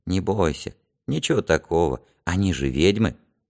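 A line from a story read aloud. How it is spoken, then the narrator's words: Quiet reply. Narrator (Russian): Гелька тихо ответил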